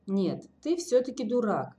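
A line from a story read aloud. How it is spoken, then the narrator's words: Calm. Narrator (Russian): спокойно произнес Тимур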